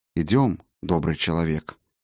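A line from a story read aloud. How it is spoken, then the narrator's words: Quiet. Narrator (Russian): негромко проговорил Фиделис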